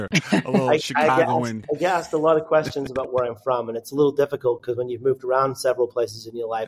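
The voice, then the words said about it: British accent mixed with American. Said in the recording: “your accent is fantastic ... I'm from the UK ... I have picked up an American accent as well ... a little mix here”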